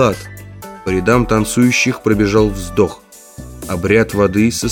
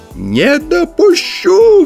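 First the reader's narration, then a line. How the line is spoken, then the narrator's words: Eldest chanter shrieking. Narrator (Russian): взвизгнул старейший песнопевец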